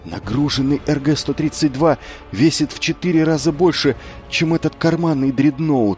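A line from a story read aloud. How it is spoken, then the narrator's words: Breathed out. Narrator (Russian): выдохнул он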